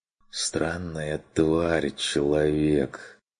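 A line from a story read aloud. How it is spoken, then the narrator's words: Barely audible wry utterance. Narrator (Russian): С кривой ухмылкой выговорил он чуть слышно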